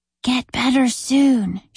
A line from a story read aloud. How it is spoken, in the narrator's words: she whispered